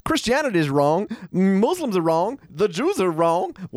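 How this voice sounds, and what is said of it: Homer Simpson impression. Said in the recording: “my Homer accent ... It's really got its like suspenders on.”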